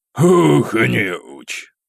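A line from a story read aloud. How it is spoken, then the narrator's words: Short laugh. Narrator (Russian): хохотнул Бьерн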